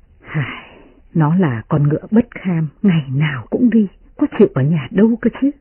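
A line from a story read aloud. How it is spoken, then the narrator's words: Sighing. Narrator (Vietnamese): Tiết Phu Nhân thở dài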